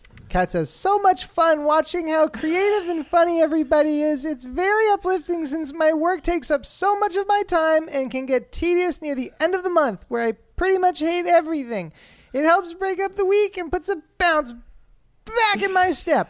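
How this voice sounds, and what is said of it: Exaggerated put-on foreign accent. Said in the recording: “do it says, with her accent too, because we all Kat, know she has an accent... That was the most racist Japanese accent I've ever heard in my entire life”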